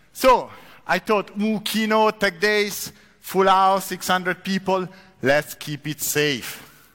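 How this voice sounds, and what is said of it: Strong accent in English. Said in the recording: “my accent is really horrible”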